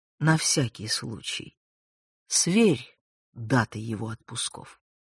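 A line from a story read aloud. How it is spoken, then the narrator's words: Quiet. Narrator (Russian): склонился к самому уху генерала и тихо проговорил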